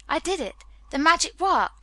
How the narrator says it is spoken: he cried

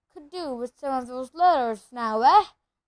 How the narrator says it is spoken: said cheerfully

